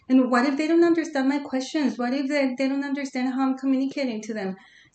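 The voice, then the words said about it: Non-native English accent. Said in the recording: “I do speak English ... I was so conscious about my accent ... my clients are not going to understand me”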